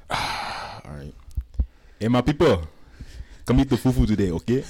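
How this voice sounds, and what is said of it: Put-on African accent. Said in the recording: “Can you give me the African accent, please?”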